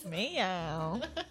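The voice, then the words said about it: Imitates a cat meowing. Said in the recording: “Good cat impression”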